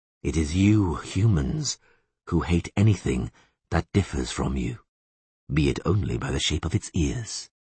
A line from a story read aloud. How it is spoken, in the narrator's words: the elf went on calmly